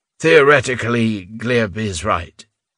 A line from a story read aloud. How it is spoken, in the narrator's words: Reuben said hesitantly